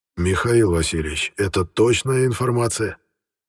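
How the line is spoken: Hoarse question. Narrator (Russian): хрипло спросил великий князь Александр Михайлович

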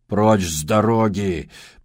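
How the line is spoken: Growled. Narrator (Russian): прорычал Джибрил

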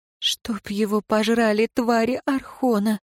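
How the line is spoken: Muffled, hollow. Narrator (Russian): глухо произнесла Ирейн

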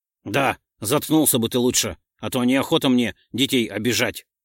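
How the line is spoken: Snapping. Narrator (Russian): огрызнулся Ролдон

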